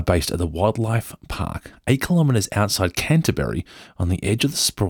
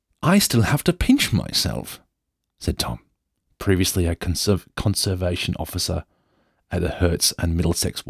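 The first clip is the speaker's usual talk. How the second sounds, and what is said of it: Put-on posh English accent. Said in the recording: “I should do an English accent ... You're about to hear an Australian do an English accent ... I'm just going to just go full Downton Abbey”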